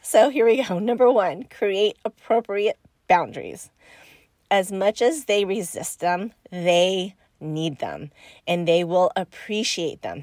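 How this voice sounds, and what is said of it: Nasal, congested voice with a cold. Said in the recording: “hear it in my voice, I'm going through a cold right now ... I'm a little nasally. I'll probably throw in a couple sniffles or coughs”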